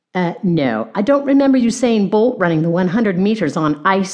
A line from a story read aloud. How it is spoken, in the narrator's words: Lucas said sarcastically